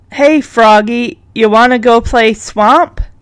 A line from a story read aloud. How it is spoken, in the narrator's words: Punky then turns to Cherry and says in a frog voice